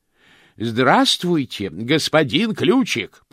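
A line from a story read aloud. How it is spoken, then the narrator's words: Shouted. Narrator (Russian): прокричал ему Чудакули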